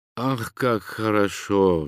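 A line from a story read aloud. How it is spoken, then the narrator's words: Sighed. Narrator (Russian): вздохнул Ганилон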